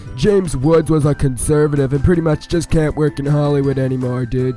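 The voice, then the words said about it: Weak California surfer accent. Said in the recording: “in that California surfer accent that is totally lacking”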